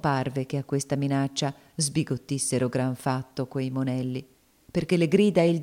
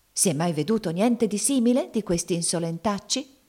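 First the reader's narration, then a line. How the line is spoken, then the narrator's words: Shouting, secretly pleased. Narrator (Italian): gridava la zia Chloe con una segreta soddisfazione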